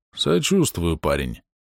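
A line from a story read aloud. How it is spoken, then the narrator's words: Hoarse voice. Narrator (Russian): хриплым голосом сказал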